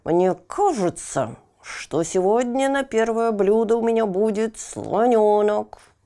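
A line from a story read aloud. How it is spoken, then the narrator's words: Through gritted teeth. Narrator (Russian): сказал крокодил, и сказал сквозь зубы, вот так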